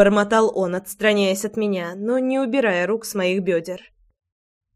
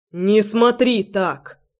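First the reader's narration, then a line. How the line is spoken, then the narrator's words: Barked. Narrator (Russian): рявкнул Роман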